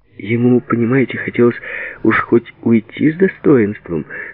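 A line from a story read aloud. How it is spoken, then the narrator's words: Laughing while speaking. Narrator (Russian): смеясь говорил Сережа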